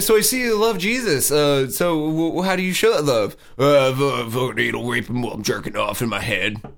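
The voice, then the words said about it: Surly New York plumber-like voice. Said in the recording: “my Kirk Cameron impression... just like a surly fucking New York plumber”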